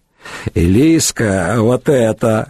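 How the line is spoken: Woman chuckling. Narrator (Russian): хохотнула рыжеволосая

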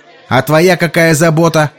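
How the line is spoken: Barked. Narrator (Russian): рявкнул Сол

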